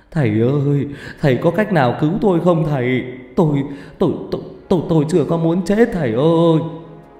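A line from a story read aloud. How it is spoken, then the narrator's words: Whimpering, pleading. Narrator (Vietnamese): Ông ta mếu máo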